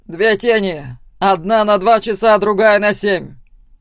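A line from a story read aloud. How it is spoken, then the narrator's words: Loud announcement. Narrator (Russian): громко сообщил он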